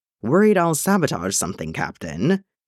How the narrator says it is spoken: Granta asks dryly

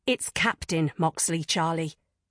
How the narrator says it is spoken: she snapped, swallowing her fear as best she could

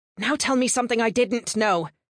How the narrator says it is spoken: she snapped in return

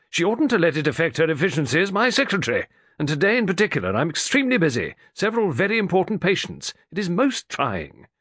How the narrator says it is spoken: Morley snapped

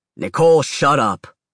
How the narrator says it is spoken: Dad grumbled

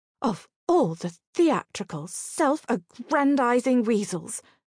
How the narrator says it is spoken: exclaimed Imelda

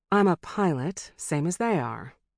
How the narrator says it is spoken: she answered, as evenly as she could

